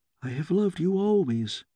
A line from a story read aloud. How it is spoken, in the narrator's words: whispered